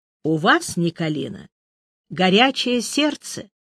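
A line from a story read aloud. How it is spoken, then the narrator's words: Calm continuing. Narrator (Russian): также спокойно продолжал Андерсон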